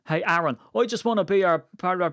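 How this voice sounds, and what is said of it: Put-on accent, not his own. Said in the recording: “that's not my actual accent. I've quite a neutral accent”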